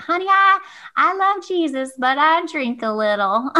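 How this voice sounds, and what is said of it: Put-on elderly Southern US accent. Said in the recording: “she has this like grandma Southern accent”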